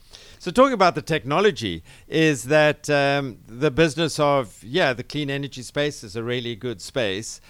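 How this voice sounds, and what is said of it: South African accent. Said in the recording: “You can tell from my accent, I'm not originally from here, originally from Cape Town mm-hmm. in South Africa”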